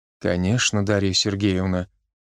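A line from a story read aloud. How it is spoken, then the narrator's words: Gentle repetition. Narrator (Russian): мягко повторился Евген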